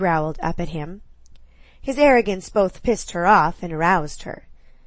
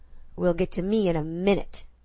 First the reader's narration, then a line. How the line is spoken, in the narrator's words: he snapped